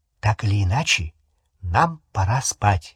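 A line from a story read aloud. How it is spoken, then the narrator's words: Whisper. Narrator (Russian): прошептала Гермиона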